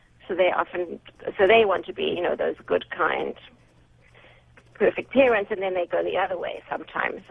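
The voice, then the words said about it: Noticeable accent. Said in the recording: “your accent is very, very interesting”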